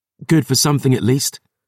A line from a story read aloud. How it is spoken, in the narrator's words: gasped